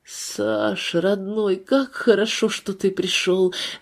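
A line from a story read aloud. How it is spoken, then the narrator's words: Joyful. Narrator (Russian): радостно произнес Нестеров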